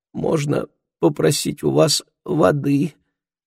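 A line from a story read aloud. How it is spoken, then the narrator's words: Weak voice. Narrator (Russian): спросил он слабым голосом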